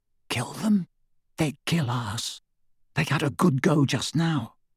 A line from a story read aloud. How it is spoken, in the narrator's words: even more quietly